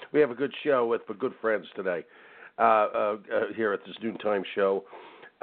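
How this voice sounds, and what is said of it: Snuffly, nasal voice from a cold. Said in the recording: “I have a little cold today. Bear with me if my voice sounds a bit snuffly ... I caught the cold bug ... If I'm nasally”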